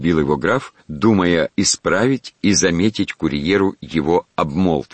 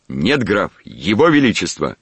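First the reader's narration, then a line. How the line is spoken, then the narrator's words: Firmly confident tone. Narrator (Russian): подтвердил тот непреложно уверенным тоном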